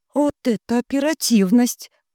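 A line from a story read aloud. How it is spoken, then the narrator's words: Breathless exhale. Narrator (Russian): выдохнула я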